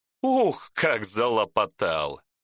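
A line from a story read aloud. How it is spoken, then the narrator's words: Laughing. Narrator (Russian): рассмеялся профи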